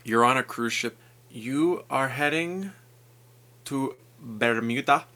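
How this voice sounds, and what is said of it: Put-on accent. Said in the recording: “I don't know why I said it in an accent ... That was a great accent”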